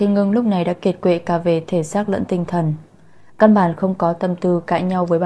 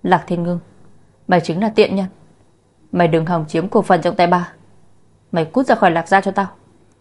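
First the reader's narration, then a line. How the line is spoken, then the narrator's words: Woman screaming. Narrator (Vietnamese): Bà ta hét lên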